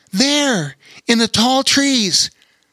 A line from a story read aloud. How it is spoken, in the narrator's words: exclaimed Lore